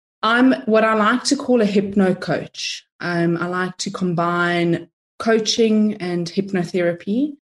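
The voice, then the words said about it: South African accent. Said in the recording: “I'm of Italian descent, but I'm from South Africa, if you're wondering where the accent is from”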